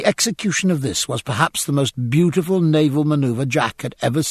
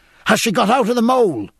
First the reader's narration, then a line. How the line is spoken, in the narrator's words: cried Stephen at a considerable distance